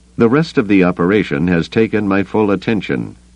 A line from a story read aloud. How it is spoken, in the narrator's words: Pelion told him stiffly, trying to hide his distaste for the man